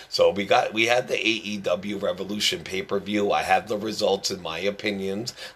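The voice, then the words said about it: Strained, hoarse voice. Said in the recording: “As you can hear, I'm losing my voice”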